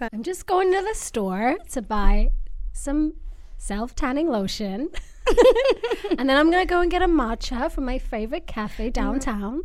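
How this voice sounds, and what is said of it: Valley Girl accent. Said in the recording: “Valley Girl accent ... Valley Girl vibe”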